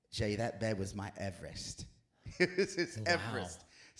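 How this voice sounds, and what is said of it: Bad attempt at British accent. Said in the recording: “I'm about to do a really bad British accent... if it's wrong, you need to know I'm going for British. It might come out Australian.”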